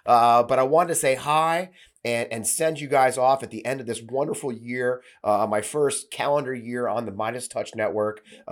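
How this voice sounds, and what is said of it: Voice slightly off from illness. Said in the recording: “I also got sick. You may notice my voice is a little off”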